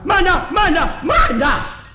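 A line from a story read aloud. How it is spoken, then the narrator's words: Loud shout. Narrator (Chinese): 在后边有人高声喊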